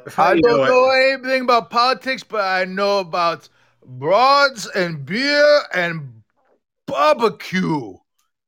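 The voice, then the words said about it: Put-on foreign accent. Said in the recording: “pardon my accent”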